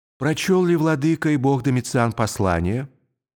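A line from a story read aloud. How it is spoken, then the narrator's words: Soft calm question. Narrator (Russian): спросил, наконец, своим мягким, спокойным голосом слепой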